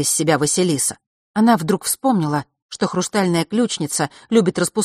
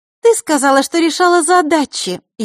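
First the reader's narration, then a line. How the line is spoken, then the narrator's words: Snide interjection. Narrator (Russian): ехидно ввернула Маришка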